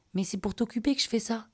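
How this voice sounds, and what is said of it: Small soft voice. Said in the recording (French): “avec une petite voix douce”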